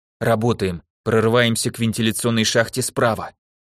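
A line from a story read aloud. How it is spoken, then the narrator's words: Quiet, firm command. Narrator (Russian): тихо приказала Жозе, отметая все сомнения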